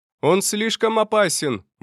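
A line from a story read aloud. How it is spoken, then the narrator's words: Shout from back rows. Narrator (Russian): выкрикнул кто-то из задних рядов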